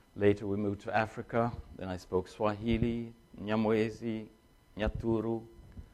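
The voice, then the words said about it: Mixed foreign accent, Danish-influenced. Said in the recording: “I was born by Danish parents in China, so I'll have to excuse my accent. ... my language is kind of mixed up”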